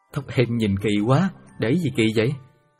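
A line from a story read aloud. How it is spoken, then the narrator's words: Loud laughing. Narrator (Vietnamese): Hoàng cười lớn nói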